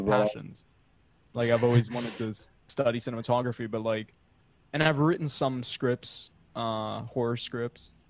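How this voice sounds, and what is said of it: Noticeable regional accent. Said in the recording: “With your accent, it sounds like you're saying whore instead of horror.”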